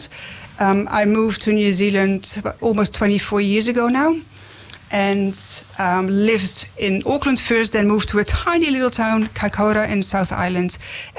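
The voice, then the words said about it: Dutch accent. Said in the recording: “my accent would have given it away as well by now. ... I was born in Holland or the Netherlands”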